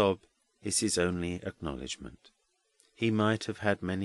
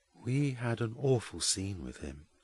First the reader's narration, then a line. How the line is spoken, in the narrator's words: says Jasper in a low voice